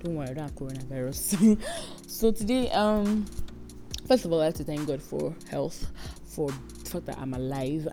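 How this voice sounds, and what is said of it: Congested, under-the-weather voice. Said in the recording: “I'm not sounding very, very good today because I have a cold.”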